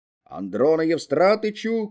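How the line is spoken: Shouting. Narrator (Russian): кричал Мыльников

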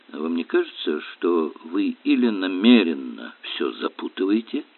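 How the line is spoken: Soft remark. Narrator (Russian): по-прежнему мягко заметил Эллери

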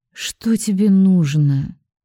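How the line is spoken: Weary question. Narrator (Russian): Спрашиваю устало

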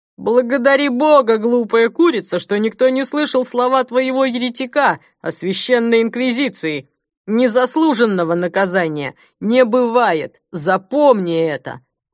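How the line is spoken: Booming voice overhead. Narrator (Russian): Прогремели над головой слова

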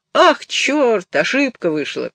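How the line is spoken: Laughing. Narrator (Russian): Баренбойм засмеялся

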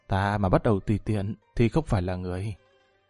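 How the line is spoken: Soft chuckling whisper. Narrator (Vietnamese): Lâm Văn Vinh cười hắc hắc, ghé tai nhẹ nhàng nói tiếp

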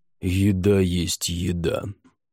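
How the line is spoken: Rude interruption. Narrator (Russian): грубо прервал ее Халахель

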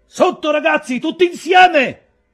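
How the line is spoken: Shout. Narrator (Italian): gridò Merry

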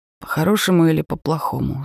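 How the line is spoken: Angry growl. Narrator (Russian): злобно прорычал

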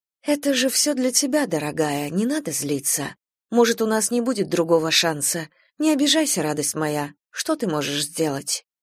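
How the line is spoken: Soft, torn between anger and pity. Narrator (Russian): то ли злилась, то ли жалела всех, Ианта мягко сказала

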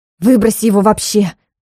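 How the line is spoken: Angry bark. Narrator (Russian): Зло рявкнула

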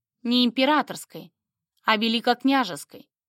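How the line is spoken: Completely calm correction. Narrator (Russian): совершенно спокойно поправил меня Андрей

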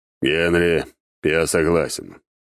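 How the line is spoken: Cold declaration. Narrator (Russian): холодно заявил он

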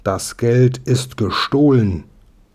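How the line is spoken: Professor's loud call. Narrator (German): rief der Professor laut

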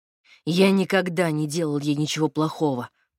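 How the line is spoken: Through gritted teeth. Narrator (Russian): процедил Игорь

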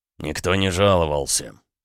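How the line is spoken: Grumbled. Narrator (Russian): пробурчал Макеев

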